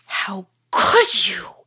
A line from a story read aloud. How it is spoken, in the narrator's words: hissed Piquant